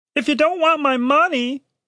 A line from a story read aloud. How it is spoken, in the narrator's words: he said shakily